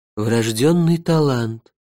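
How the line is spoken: Pompous velvety female voice. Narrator (Russian): важно сказал я чужим бархатистым женским голосом

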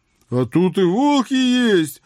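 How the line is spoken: Joyful, excited. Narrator (Russian): радостно подскочил Митяй

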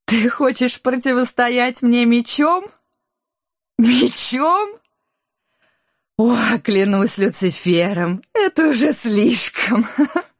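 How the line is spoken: Triumphant laughing queen. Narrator (Russian): Королева Морт торжествующе рассмеялась

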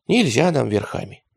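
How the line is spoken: Sighing. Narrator (Russian): вздохнул Радищев

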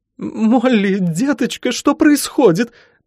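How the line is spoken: Sobbing mother. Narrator (Russian): прорыдала мама

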